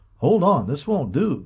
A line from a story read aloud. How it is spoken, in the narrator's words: the physician exclaimed